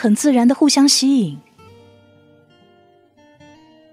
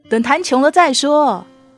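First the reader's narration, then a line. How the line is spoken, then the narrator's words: Laughing. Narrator (Chinese): 我笑着说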